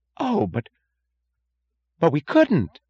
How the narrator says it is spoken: gasped Mooch

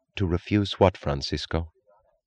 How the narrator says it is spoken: She asked evenly

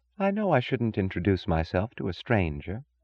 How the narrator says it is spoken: she said softly

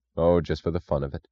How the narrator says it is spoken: said Boyle

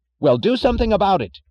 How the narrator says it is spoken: cried Mr

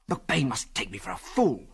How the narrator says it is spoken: he snarled savagely

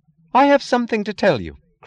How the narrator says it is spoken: cried Lillian with the sound of that impotent rage which wishes that words were brass knuckles

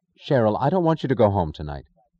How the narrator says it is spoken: Prompted by a sudden causeless certainty, Dagny said sharply

